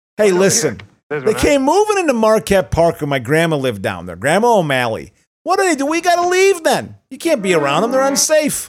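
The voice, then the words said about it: Put-on Chicago accent. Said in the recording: “for a racist accent, it's a Chicago accent”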